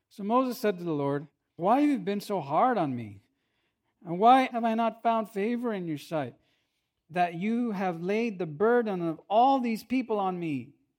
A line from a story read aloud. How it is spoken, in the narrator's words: He says, kind of sarcastically